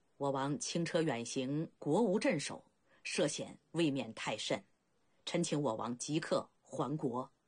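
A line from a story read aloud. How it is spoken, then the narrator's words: Low voice. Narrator (Chinese): 孟尝君低声道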